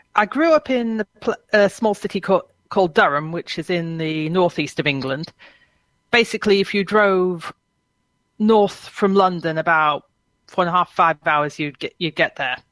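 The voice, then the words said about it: British English accent. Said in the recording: “You can probably tell from the accent, I'm a Brit by origin”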